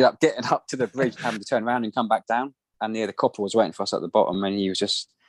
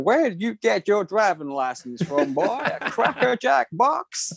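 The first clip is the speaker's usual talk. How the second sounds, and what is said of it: Put-on American Southern accent. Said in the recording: “their southern accent.”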